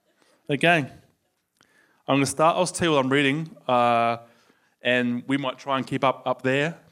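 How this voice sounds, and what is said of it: Soothing Australian accent. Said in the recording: “the soothing tone of my Australian accent”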